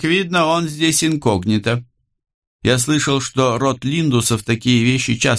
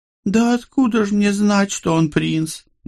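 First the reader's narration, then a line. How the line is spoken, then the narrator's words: Unusually plaintive. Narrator (Russian): непривычно жалобно ответила ему Рози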